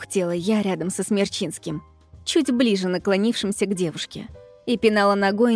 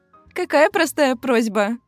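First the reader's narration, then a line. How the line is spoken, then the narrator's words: Laughing. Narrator (Russian): рассмеялась администратор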